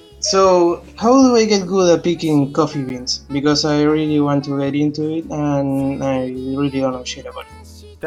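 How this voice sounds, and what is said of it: Speaks with a noticeable accent. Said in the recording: “Don't make fun of my accent”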